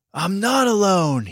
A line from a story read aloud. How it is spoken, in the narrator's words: he yelled